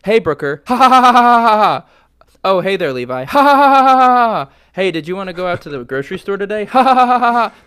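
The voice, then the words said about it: Big Bang Theory impression with laugh track. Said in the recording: “my impression of Big Bang Theory”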